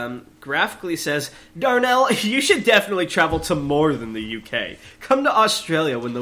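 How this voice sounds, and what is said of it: Usual voice. Nothing is said of it.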